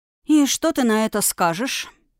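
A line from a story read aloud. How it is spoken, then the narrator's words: Quiet question, young woman. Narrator (Russian): негромко спросила девушка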